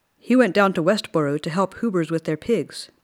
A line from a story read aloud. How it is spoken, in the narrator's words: Pop said